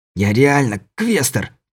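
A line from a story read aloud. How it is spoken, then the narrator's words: Hissed. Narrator (Russian): прошипел Кобельков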